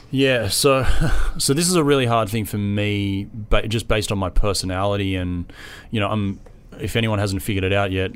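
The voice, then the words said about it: Australian accent. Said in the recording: “I'm Australian, which it's a real subtle accent. I'm sure.”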